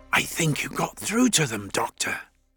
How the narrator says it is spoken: whispered

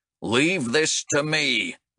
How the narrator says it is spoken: growled Bengtson

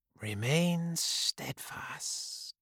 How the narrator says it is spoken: whispered

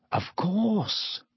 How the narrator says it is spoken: Lupin breathed

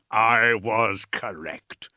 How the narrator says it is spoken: said Jewel thickly

